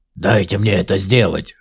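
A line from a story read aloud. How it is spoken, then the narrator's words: Creature growling. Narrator (Russian): рычал одно из существ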